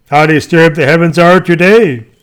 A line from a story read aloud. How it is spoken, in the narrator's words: people exclaim